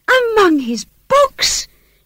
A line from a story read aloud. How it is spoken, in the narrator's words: she cried, confounded